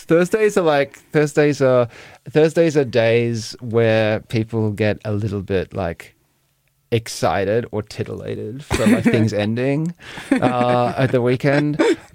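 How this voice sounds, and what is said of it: Speaking in a put-on accent. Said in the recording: “Why are you making an accent? ... I was making an accent?”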